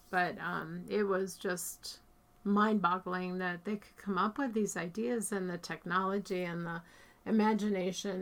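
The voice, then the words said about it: Strained, fading voice. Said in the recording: “I'm losing my voice because it's so hot in here.”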